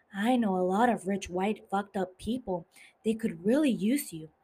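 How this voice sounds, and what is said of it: Impression of Tanya from The White Lotus. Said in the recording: “That's me imitating Tanya from The White Lotus.”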